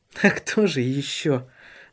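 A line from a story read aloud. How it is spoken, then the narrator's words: Laughing. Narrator (Russian): засмеялась Сесилия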